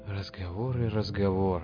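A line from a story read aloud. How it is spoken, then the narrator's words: Sighed. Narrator (Russian): вздохнул Шептун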